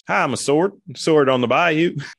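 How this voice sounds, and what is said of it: Silly put-on bayou accent. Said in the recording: “I don't know what accent I'm doing. ... I'm doing a sword accent.”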